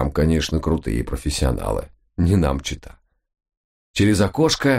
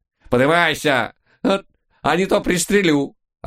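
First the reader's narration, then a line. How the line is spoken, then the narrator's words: Old woman yelling. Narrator (Russian): орала бабулька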